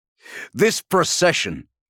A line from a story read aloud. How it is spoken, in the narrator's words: barked Sicarius